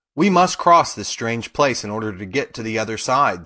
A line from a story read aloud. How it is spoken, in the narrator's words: said Dorothy